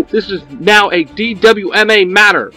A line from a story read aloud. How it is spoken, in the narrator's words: Maka shouts